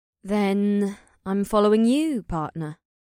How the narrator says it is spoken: the horned woman purred

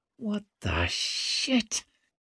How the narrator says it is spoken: hissed Orso through gritted teeth

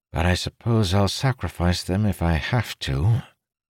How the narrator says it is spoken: a weighty sigh carried around the rock, followed by Amandal muttering

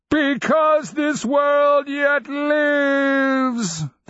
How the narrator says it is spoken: the undead beast roared

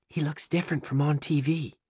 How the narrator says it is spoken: whispers

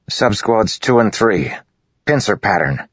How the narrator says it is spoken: Kaladin said, his voice hard

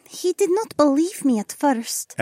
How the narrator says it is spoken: Adhara sighed

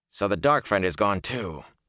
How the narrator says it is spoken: he growled

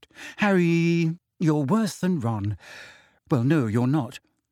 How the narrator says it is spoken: she sighed

